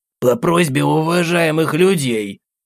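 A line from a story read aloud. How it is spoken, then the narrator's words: Strained, forced out. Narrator (Russian): Выдавил из себя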